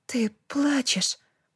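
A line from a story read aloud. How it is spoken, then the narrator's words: Murmured. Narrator (Russian): пробормотала Би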